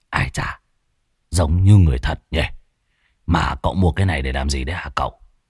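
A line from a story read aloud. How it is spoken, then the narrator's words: Old man muttering. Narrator (Vietnamese): Lão Muôn Phọt ròm ròm, lẩm bẩm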